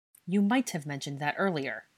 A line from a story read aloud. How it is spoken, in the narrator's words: Harry said stiffly